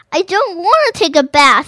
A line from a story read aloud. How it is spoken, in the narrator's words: he cried again